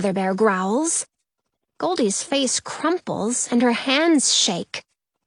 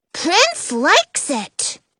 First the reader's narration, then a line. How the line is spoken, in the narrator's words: Kid Bear exclaims